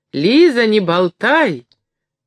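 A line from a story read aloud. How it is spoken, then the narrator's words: Old woman shouting from afar. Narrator (Russian): закричала старушка из другой комнаты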